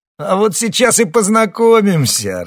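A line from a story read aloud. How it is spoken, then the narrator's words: Loud laughter. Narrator (Russian): расхохотался Бритоголовый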